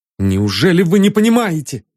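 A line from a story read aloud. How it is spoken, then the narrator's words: Cry out. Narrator (Russian): вскрикнул Ванзаров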